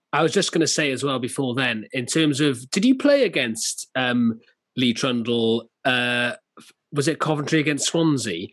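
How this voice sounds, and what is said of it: Swansea Welsh accent. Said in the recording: “I don't have a Wrexham accent, I'm a Swansea Jack”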